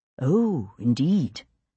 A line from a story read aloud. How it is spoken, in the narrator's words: John murmured